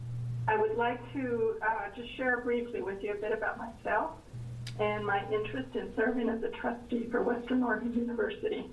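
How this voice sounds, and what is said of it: Crackly voice from a cold. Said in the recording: “I'm recovering from a very bad cold and cough, so my voice might sound a little crackly at times”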